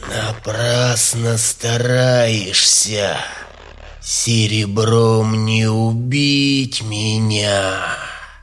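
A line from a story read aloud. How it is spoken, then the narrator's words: Vampire's hiss. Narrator (Russian): прошипел вампир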